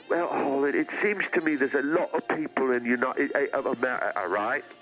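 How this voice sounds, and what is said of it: Strong, hard-to-follow accent. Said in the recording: “I can never get your accent.”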